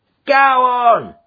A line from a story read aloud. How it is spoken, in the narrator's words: yelled the voice